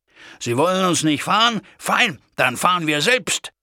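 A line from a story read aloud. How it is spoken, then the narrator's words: Calling out. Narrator (German): rief ich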